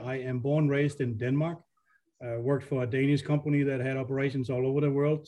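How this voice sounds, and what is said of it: Foreign Danish accent. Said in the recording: “You can tell from my accent that I wasn't born in this country”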